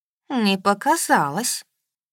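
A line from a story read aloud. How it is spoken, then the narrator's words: Gloomy. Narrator (Russian): мрачно сказала спутница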